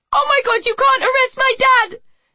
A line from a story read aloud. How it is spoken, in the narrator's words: Amy shrieked hysterically